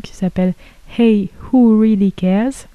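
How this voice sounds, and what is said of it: French-accented English. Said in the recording (French): “Pardonnez mon accent anglais”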